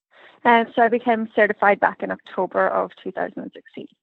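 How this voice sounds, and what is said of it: Slight Irish accent. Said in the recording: “that Irish accent a little bit”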